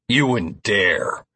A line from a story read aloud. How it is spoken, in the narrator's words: I snarled